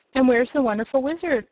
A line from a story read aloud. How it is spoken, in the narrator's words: asked Aunt Em